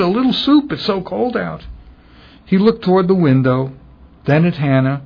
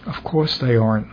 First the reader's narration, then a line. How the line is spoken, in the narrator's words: Mom said sadly